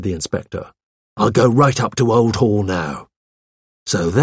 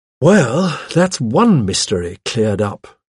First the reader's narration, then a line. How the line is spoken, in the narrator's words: I said with a sigh